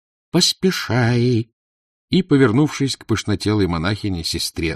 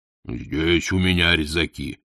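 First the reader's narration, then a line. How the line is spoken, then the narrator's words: Booming drone. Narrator (Russian): прогудел дьякон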